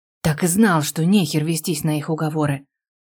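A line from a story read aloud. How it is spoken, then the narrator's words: Heavy sigh. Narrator (Russian): Вздохнул тяжко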